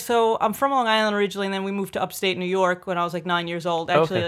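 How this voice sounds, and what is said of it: New York Long Island accent. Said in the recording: “nobody could tell because of my accent ... I've never lost my accent at all, obviously ... If you're around a bunch of Italians from New York, you're going to definitely sound a certain way”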